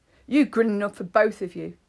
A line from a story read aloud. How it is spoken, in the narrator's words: Kevin said sharply